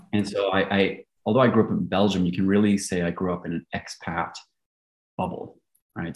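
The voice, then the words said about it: Largely American accent. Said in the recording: “my largely American accent”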